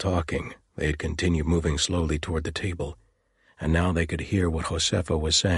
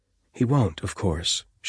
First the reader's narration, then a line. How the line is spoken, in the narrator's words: said sadly